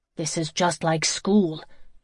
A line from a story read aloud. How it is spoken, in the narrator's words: Joey grumbled